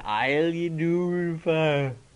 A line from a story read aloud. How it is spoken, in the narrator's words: And he slurred